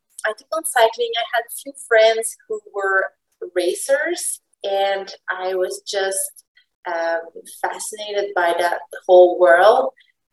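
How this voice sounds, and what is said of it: Quebec French accent in English. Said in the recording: “Oh, you're from Quebec ... I should have known. Like. The accent.”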